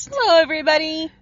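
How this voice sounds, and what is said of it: Funny put-on voice. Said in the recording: “talk like that? ... talking in a funny voice?”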